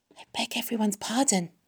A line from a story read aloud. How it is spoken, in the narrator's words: whispered Wilbur